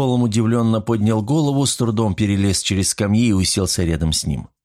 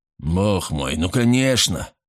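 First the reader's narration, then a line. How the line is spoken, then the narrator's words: Snorting. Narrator (Russian): фыркнул тот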